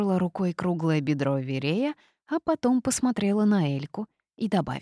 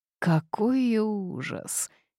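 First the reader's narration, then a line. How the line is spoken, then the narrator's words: Quiet moan. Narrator (Russian): тихо простонал из-за плеча Корвус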